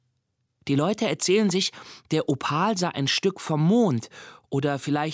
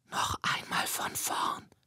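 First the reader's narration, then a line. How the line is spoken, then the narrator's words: Whispered. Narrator (German): flüstert sie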